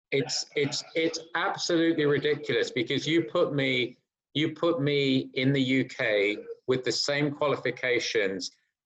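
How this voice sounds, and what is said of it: English accent. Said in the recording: “I have an English accent.”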